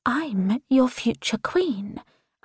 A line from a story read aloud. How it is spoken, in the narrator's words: I whisper